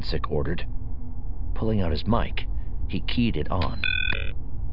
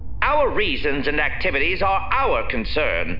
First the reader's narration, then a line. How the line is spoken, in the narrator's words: Roscoe growled